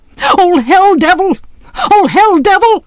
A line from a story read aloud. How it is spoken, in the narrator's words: he screamed